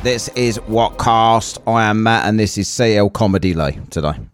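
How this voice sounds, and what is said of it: Robotic Dalek-like voice. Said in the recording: “you sound like a Dalek ... it's the way you said it, because this is WhatCast”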